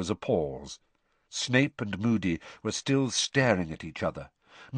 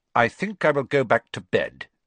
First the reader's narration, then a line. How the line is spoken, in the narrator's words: Snape said, curtly